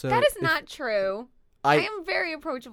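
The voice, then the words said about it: Yelling loudly into the mic. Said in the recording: “Do you like how I'm yelling at you? ... you're just yelling into the mic”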